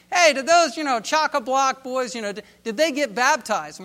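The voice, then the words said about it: Weak New Zealand or Australian accent. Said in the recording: “I can't really muster up a New Zealander or Australian accent that would satisfy the moment”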